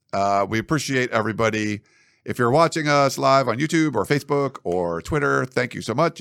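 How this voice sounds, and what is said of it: Worn-out, partly lost voice. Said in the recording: “my voice is kind of gone a little bit too”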